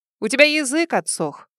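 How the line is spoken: Snorting. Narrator (Russian): хмыкнула она

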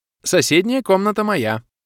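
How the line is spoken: Bright cheerful declaration. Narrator (Russian): бодро и радостно заявила пришедшая в мой дом беда

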